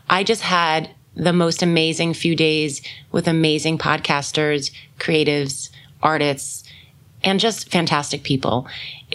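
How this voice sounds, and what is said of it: Slightly scratchy voice. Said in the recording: “My voice may be a little scratchy, so bear with me ... I was singing and dancing one of the nights. So my voice probably isn't at the best”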